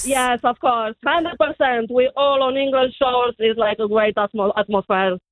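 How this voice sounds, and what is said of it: Romanian accent. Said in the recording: “Where's your accent from? ... I'm Romanian.”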